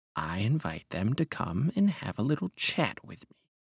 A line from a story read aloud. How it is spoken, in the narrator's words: he said in a soft voice